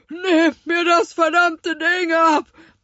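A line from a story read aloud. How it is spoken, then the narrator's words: Roar. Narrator (German): brüllte er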